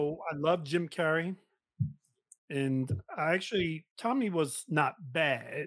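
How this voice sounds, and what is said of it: Usual voice. Nothing is said of it.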